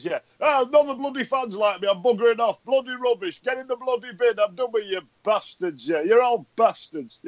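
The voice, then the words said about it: Imitates another person's voice. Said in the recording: “Mick McCarthy impression ... given my accent and outlook on life ... Your Mick McCarthy impression is still funny ... very similar to your pissed off Wednesday fan impression”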